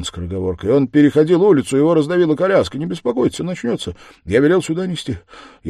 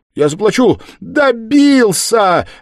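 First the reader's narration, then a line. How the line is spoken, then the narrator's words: Desperate cry. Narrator (Russian): отчаянно вскрикнула Катерина Ивановна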